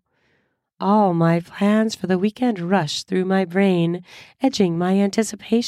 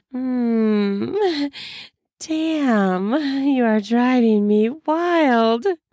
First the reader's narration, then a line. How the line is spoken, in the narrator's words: I drawl out in a moan-like voice